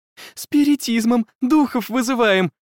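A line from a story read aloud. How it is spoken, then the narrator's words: Joyful report after fright. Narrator (Russian): радостно доложила Эмили, мгновенно оправившись от испуга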